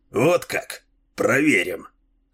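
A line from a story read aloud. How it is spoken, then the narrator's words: Snorting smirk. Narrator (Russian): хмыкнул Дилуло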